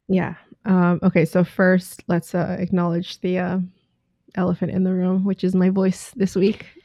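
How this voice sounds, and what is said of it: Raspy voice. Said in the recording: “it is a sexy, raspy voice”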